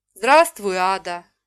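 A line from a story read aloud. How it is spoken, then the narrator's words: Unbearably sad, tearful. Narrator (Russian): невыносимо печальным голосом сказал он и снова залился слезами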